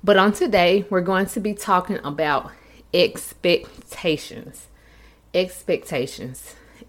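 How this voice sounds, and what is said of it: Slightly unwell, funny-sounding voice. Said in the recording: “I am under the weather. So if my voice sounds a little funny, I have been kind of sick”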